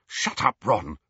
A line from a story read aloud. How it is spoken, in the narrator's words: snapped Hermione